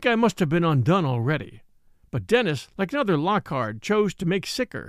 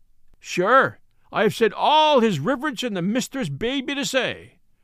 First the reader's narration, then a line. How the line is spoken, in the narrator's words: cried he, in defiance